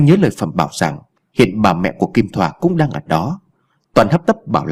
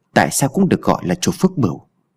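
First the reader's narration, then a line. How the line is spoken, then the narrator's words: Muttered. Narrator (Vietnamese): Anh lẩm bẩm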